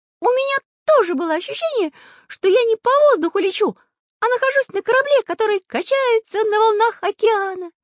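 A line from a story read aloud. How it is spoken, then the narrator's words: Cheerful. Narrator (Russian): весело сказал Карандаш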